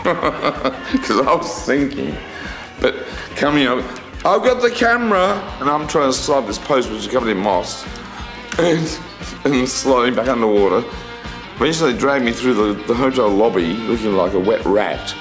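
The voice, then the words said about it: Cultivated Melbourne Australian accent. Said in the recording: “I just love the accent. I love the voice. It's so sort of Michael Hutchence, Molly Meldrum, you know, that ilk, that sort of Melbourne cultivated accent but just kind of like fucked up and a little bit drunk”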